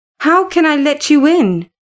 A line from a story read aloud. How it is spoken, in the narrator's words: I cried